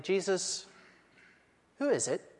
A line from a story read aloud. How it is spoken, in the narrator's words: said quietly